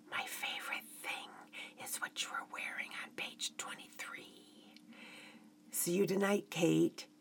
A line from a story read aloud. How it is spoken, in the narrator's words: he was beaming with confidence ... whispered